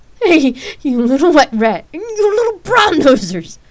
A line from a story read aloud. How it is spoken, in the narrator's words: Rain laughed